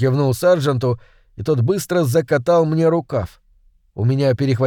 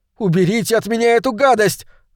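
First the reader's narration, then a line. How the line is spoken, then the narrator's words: Yelling. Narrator (Russian): заорал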